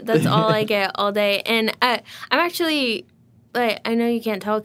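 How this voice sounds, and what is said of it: Talking really fast. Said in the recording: “because I'm talking really fast”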